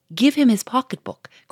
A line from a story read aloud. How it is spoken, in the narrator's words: cried a third